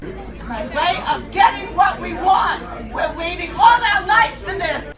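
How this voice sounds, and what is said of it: Screaming. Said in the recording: “Why are you screaming?”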